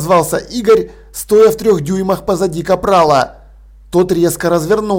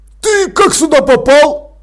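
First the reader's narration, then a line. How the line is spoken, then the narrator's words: Barking. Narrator (Russian): рявкнул он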